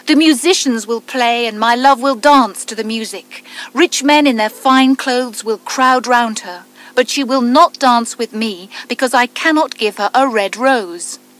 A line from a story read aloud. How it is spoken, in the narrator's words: The student cried